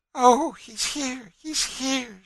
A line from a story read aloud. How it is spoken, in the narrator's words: she exclaimed